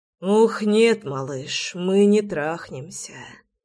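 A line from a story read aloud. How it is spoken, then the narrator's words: Aroused hoarse rasp. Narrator (Russian): прохрипел я, заводясь мгновенно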